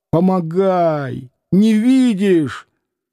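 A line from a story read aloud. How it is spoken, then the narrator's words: Hoarse shout, young man. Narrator (Russian): Молодой парень без шапки хрипло кричал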